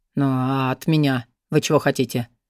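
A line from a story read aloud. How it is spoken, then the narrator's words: Weary question. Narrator (Russian): Устало поинтересовался Орвик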